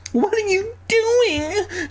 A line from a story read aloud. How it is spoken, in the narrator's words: She shrieked, always shrieking these aunts